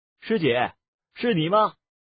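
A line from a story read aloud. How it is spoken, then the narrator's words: Call echoing far. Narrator (Chinese): 他的声音在竹林间远远地传了开去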